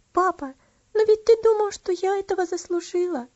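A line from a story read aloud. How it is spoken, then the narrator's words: Sobbing. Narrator (Russian): Разрыдавшись, сказала она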